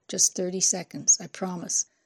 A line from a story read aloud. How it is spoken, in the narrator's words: Leaning close, he muttered